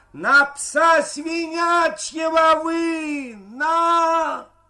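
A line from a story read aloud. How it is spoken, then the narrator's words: Shouting in tenor. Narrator (Russian): Максим кричал тенарком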